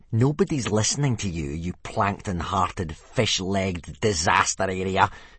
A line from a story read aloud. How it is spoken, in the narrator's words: sneered Snotlout